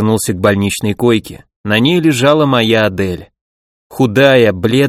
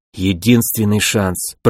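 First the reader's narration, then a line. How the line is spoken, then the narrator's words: Nervous mutter after gulping. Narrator (Russian): пробормотал я, сглотнув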